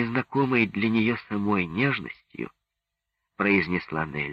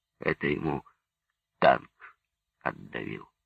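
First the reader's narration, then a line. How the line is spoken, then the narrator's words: Muffled soldier. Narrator (Russian): глухо сказал боец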